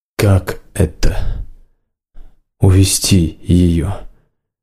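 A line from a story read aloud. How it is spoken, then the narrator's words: Quiet question. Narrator (Russian): тихо спросил Варан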